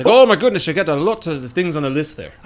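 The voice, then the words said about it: Fast-talking salesman character accent. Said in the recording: “Man, I love your accent. ... You just spit it all out at me really fast, like.”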